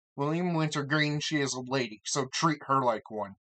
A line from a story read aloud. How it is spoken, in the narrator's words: George snapped